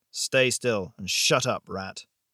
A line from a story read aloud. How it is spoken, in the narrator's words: shot back gruffly